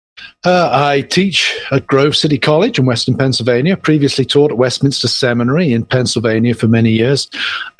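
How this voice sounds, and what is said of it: British accent. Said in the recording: “as you can tell from my accent, I'm not from the south side of Philly. I'm from the United Kingdom”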